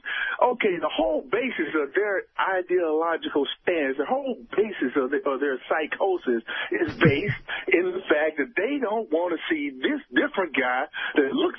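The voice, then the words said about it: Italian (Sicilian) accent. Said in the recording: “based on your accent, I'm guessing you're Italian? ... Here's Sicily, man.”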